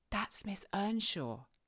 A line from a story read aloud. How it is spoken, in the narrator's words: he whispered to his mother